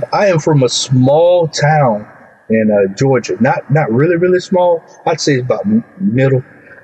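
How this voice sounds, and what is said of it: Southern US accent. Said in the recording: “You're down in the dirty South. Yeah. If your accent doesn't give a hint to anybody.”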